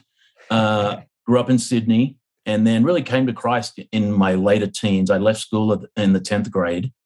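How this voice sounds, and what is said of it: Australian accent. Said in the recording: “From Australia originally. ... the accent gives it away a little bit.”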